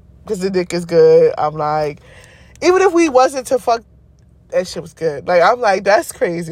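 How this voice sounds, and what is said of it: Giddy, excited voice. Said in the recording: “I'm real giddy. Like, you probably can still hear it in my voice right now ... I'm giddy as fuck”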